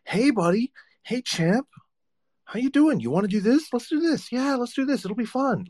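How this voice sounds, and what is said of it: Cheery kindergarten-teacher voice. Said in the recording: “adults tend to like have like a voice that they use when they're talking to kids... Like the kindergarten teacher voice... Like the adult voice that they use on kids”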